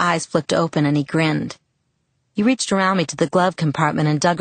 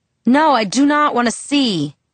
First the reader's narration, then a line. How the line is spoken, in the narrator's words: shouted